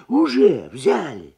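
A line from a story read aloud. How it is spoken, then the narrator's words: Nervous exclamation, old man. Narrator (Russian): нервно воскликнул старый табачник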